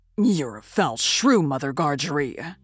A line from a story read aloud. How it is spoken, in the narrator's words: growled the journeyman